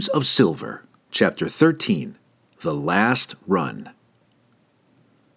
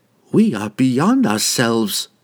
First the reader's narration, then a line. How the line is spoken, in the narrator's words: he sighed